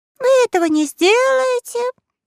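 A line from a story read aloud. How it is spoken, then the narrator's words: Loud, slightly scared boy. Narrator (Russian): громко ответил и мальчик, который, правда, немного струхнул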